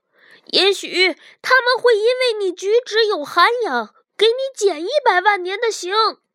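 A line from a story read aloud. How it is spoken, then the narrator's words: Shouting. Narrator (Chinese): 骗人虫嚷道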